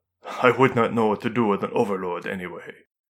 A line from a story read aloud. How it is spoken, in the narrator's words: Hoshino said with a chuckle